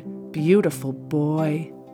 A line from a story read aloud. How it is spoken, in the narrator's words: Jane cooed